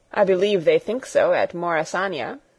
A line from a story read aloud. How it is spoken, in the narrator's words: said Birch dryly